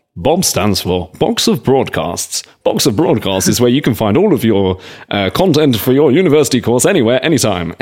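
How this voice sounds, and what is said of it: Sexy voiceover voice. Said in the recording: “It's also my sexy voice.”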